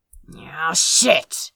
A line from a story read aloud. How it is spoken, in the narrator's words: he muttered